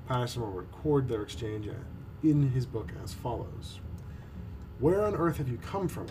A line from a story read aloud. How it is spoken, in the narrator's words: I exclaimed